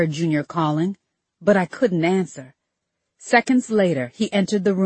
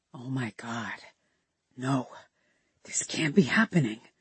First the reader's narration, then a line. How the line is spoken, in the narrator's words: I heard him whisper